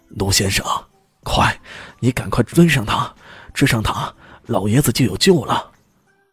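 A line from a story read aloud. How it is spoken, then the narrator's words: Tense, urgent. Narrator (Chinese): 马上很紧张的说道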